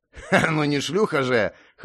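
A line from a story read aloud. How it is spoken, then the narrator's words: Laughing. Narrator (Russian): хохотнул монгол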